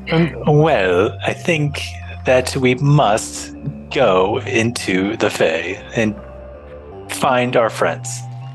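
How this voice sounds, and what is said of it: Posh accent. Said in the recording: “your most posh accent”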